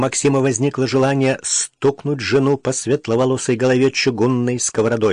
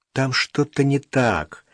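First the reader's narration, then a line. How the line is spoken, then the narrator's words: Quiet but stubborn. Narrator (Russian): негромко, но упрямо повторила Даша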